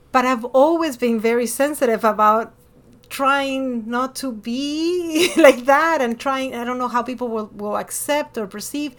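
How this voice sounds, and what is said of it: Hispanic accent in English. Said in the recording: “I'm Hispanic. I am Latina. I speak Spanish. I speak with an accent.”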